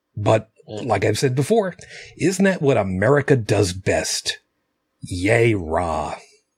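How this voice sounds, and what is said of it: Sarcastic tone. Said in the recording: “Can you hear the sarcasm in my voice?”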